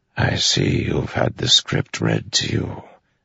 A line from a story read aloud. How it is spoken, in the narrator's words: Taravangian said softly